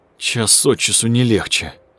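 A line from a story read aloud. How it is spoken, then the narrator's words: Groaning. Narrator (Russian): застонал Кошман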